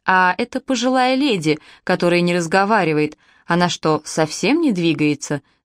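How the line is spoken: Plain. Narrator (Russian): спросила я

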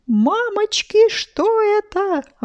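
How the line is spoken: Exclaimed. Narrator (Russian): воскликнул Сережа

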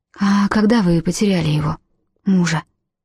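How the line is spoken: Soft question. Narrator (Russian): мягко спросила Урсула

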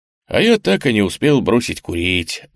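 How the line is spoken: Sigh. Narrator (Russian): вздохнул Штирлиц

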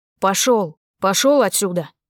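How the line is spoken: Barking at dog. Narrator (Russian): Рявкнул на пса

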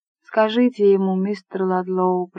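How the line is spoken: Sad voice. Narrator (Russian): произнесла миссис Ладлоу печальным голосом

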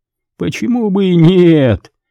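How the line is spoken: Laughing. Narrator (Russian): рассмеялся Хилдс

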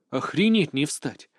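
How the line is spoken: Muttered. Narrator (Russian): пробормотал

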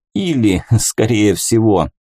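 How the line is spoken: Laughing. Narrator (Russian): засмеялся тот

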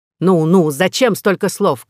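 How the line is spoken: King shouting. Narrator (Russian): крикнул король

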